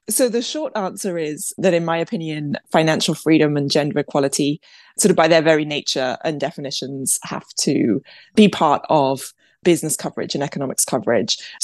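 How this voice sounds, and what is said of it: British accent. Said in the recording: “you probably wouldn't guess it from my accent ... my father is British, hence the British accent.”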